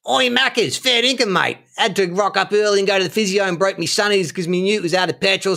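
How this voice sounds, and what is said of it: Put-on Australian accent. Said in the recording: “my impression of me offering McDonald's to my Australian friend Shane ... So I'll do the accents now just to differentiate between the two characters”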